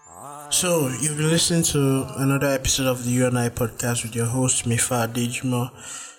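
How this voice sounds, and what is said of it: Slightly low, subdued voice. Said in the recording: “my voice is a little bit down ... I'm currently battling a cold”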